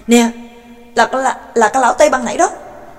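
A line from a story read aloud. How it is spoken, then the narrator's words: Startled loud shout. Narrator (Vietnamese): Đường Phong thảng thốt hét to lên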